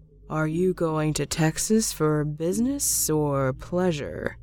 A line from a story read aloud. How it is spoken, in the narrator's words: he asked in a slow monotone